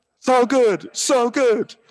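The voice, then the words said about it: Bad impression of a singer's voice. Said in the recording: “my bad Neil Diamond impression.”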